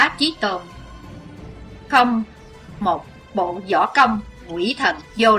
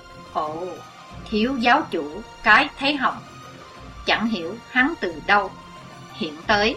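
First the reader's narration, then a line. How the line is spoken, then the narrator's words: Soft murmur. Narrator (Vietnamese): Chí Tôn khẽ thầm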